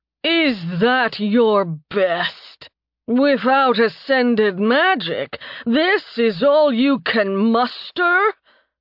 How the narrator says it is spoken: Thanatos boomed

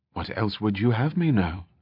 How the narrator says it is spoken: he replied quietly

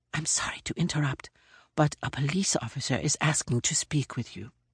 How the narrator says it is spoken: whispered

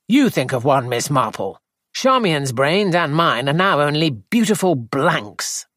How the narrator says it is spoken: Edward said crossly

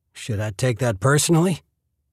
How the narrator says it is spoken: Bill chuckled

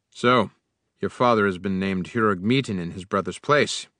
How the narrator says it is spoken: he said in a bored tone

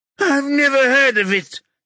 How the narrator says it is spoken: he gasps

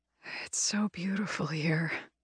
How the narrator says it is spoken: she whispers dreamily, fully relaxed

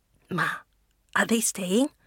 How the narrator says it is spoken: He whispers

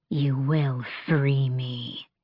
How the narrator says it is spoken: she hissed, and the voice was not that of a beautiful queen, but something vicious and cold

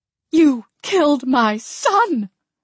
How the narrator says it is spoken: she screamed

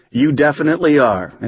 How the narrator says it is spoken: they laugh and shout out

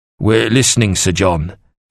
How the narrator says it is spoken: Evelgold growled

